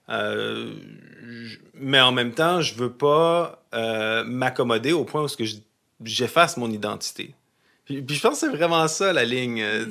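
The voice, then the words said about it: Québécois French accent. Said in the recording (French): “je suis pas gêné de mon accent, même je suis pas mal fier de mon accent. Puis honnêtement, quand tu viens au Québec, tu as un accent québécois ... mon accent poserait peut-être problème”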